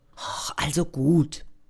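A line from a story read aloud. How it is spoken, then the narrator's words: Murmuring. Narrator (German): murmelt Frieda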